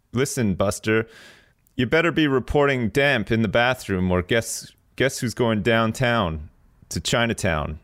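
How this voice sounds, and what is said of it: Put-on Russian-style accent. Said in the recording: “He's always got some sort of accent, like maybe he's from Russia or something.”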